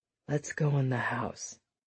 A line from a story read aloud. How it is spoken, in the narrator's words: he said quietly, next to her ear